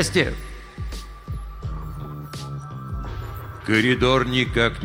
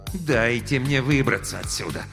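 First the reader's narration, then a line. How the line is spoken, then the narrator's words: Vengeful words through gritted teeth. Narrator (Russian): мстительно процедил кинокритик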